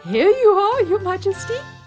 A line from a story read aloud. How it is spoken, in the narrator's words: cried proudly